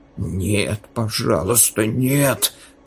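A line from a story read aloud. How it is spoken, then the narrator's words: Whisper. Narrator (Russian): прошептал он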